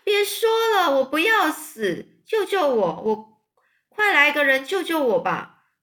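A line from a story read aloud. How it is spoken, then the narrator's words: Screaming. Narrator (Chinese): 韦伯就尖叫说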